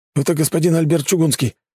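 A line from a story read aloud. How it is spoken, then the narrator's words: Hurried rapid chatter. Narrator (Russian): спешно затараторил офицер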